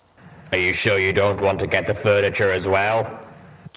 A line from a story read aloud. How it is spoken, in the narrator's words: Calamity grunted